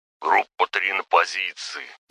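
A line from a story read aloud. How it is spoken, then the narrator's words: Grumbling. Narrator (Russian): проворчал Бурелом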